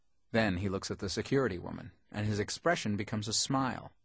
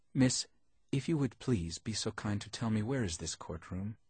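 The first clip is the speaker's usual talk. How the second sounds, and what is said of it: Greek accent. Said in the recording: “Greek accent”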